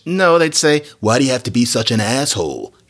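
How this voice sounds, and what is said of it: Imitation of a Hollywood actor. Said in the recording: “That's my imitation of, like, Owen Pitt.”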